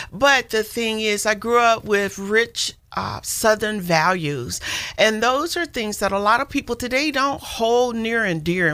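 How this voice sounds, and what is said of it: Southern American accent. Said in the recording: “We detected an accent. ... I'm a Southern woman. I grew up in Arkansas”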